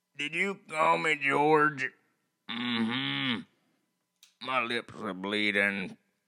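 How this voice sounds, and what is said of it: Strained movie character impression. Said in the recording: “Sling Blade ... Billy Bob Thornton ... I can't tell if you're doing an impersonation or if you got to use the restroom”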